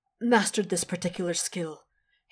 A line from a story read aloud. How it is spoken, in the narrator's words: continues, a little more breathlessly than before